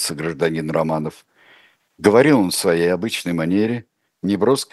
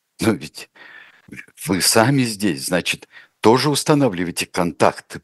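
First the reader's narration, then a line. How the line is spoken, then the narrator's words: Babbling. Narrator (Russian): пролепетал Чернов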